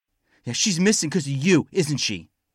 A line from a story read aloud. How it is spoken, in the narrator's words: Rottenbacher shouted